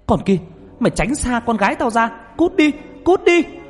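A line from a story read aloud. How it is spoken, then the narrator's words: Sudden scream. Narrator (Vietnamese): Bà ngoại của Nhật chợt bà hét lên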